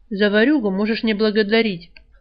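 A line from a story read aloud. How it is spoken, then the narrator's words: Snorting, composed, mocking. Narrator (Russian): фыркнул Альк, быстро взяв себя в руки и снова отгородившись глумливой ухмылкой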